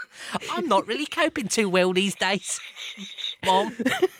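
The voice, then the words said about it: Put-on Cockney accent. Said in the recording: “put on a different voice ... we do it in like a Cockney voice”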